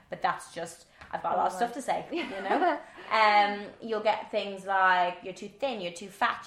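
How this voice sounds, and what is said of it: Fast-talking Irish accent. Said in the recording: “my accent ... I don't understand a word she's saying ... my Irish accent ... I do speak very fast”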